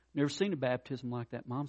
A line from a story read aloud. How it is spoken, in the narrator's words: said